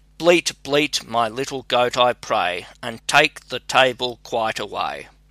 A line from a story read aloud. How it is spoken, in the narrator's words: she again cried